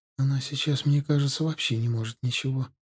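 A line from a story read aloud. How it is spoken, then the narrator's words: Sad, close to tears. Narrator (Russian): грустно сказала Галия, намереваясь, похоже, снова заплакать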